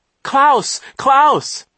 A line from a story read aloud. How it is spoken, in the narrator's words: Isadora cried as he reached the car